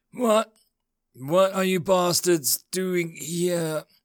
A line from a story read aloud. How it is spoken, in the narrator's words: He rasped, breathing hard